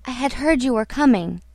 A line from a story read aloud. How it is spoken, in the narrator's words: murmured